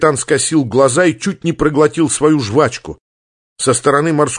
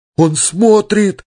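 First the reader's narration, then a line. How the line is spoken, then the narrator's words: Moaning. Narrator (Russian): продолжал стонать Яшка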